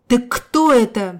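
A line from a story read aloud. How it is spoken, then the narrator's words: Conductor howling. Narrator (Russian): взвыл кондуктор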